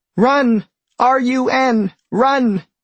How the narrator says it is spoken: screams one particular bee

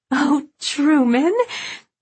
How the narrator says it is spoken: Babe gasped, in pure pleasure

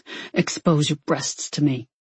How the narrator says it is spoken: he grunted

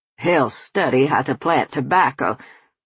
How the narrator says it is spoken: Colonel Randolph barked

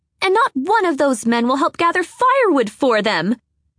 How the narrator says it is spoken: She shouted into the wind

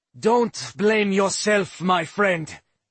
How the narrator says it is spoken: Droy thundered

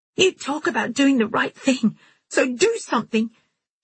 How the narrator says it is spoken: she had screamed at him

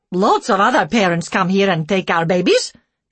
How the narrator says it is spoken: she snapped

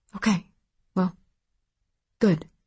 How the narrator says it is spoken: her mom said, still whispering

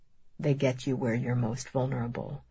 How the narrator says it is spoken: he murmurs

